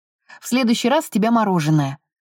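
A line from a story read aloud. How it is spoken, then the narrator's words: Stern. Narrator (Russian): строго сказал он Энн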